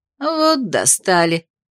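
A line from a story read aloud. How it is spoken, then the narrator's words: Grumbling. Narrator (Russian): проворчала Зики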